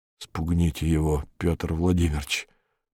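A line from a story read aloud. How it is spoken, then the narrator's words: Whisper. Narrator (Russian): прошептал Беркут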